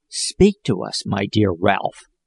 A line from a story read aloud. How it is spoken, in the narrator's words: whispered Jack tenderly